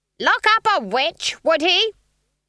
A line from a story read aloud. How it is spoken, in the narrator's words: Granny shouted at the trees